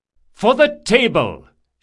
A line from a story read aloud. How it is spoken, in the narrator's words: shouted Trakasha